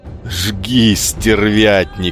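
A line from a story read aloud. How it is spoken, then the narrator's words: Laughing. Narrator (Russian): смеялся Иолай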